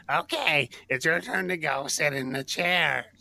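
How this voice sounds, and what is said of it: Goblin-like imitation of another person. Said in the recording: “impersonation ... Sounds like a goblin from our D&D games.”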